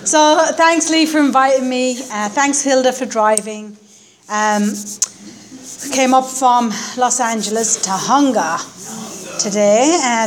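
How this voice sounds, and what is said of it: Irish accent. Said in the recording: “The accent is Irish, I know. ... it's an Irish accent.”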